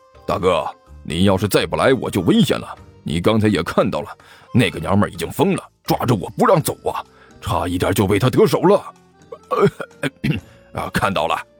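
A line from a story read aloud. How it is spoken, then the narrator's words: Low voice. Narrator (Chinese): 关小雨背对着罗玉，低声对这名劫匪说道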